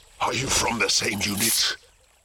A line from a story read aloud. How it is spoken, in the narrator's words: It growled